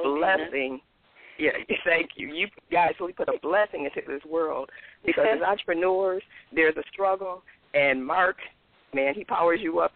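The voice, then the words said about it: Hoarse voice. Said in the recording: “I'm sounding a little bit hoarse right now because I'm sick”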